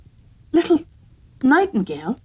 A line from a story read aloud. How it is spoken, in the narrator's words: cried the girl, raising her voice